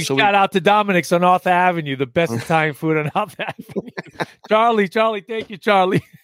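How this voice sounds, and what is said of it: Thickened New York accent. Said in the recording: “I just got back from New York. So it's my little accent thickened up a little bit”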